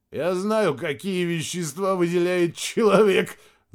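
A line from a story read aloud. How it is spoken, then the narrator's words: Laughing. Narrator (Russian): засмеялся Мирадзе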